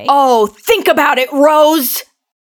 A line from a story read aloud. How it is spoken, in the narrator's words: He yells, getting right into her face